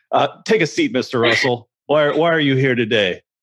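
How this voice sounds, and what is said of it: Imitates another person's voice. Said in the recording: “my Chris Hansen impersonation.”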